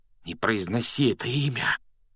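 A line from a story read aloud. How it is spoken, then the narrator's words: Frightened whisper. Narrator (Russian): испуганным шепотом попросил Рон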